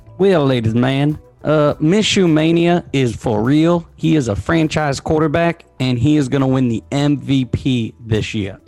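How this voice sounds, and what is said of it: Put-on redneck accent. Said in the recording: “Is that your redneck accent? ... That was something. ... It was great.”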